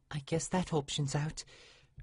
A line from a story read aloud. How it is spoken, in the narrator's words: Aurora quietly said to no one in particular